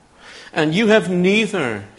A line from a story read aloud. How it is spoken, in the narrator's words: he shouts across to the armies of the northern tribes